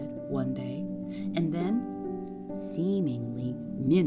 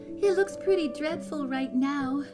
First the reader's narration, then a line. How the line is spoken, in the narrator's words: said cheerfully over the phone